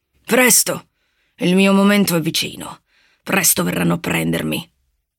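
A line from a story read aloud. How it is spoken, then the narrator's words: Muttering. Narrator (Italian): borbottò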